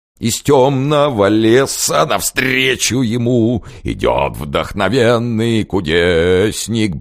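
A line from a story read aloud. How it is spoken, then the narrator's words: Blissful yelling. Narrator (Russian): блаженно орал князь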